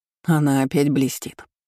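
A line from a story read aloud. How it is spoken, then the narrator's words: Snorting. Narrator (Russian): хмыкнул Карпов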